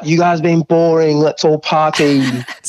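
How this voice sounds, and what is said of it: Northern English accent impression. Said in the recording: “a good impersonation ... I felt like I was in Northern England just then. I'm like, "Oh, we're in Liverpool."”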